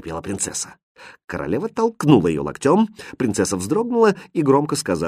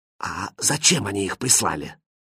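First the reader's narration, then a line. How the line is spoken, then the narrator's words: Quiet question. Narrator (Russian): Король тихо спросил его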